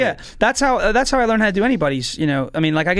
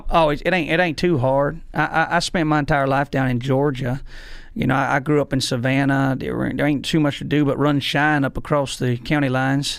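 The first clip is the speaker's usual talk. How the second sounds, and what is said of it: Put-on Southern US accent. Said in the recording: “I could do a mean Southern accent too ... Let me hear a little Southern.”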